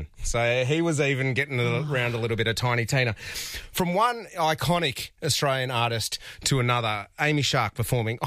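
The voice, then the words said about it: Out of breath, breathless speech. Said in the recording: “Oh, I'm so out of breath... I'm so cooked.”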